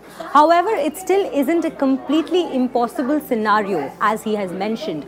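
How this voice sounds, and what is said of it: Very strong accent. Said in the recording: “I know she's got a very strong accent.”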